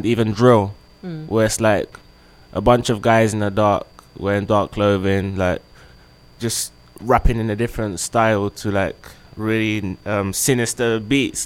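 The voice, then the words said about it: Strong accent. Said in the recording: “they always talk about my accent, because they say I got a strong accent.”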